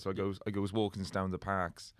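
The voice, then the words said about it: Put-on Cardiff Welsh accent. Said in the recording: “you got the Cardiff accent, so they sort of pluralized verbs there”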